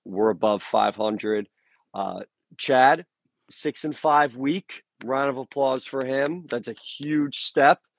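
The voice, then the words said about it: Hoarse, strained voice. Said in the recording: “you can hear I'm losing my voice because I was down in Liberty all weekend”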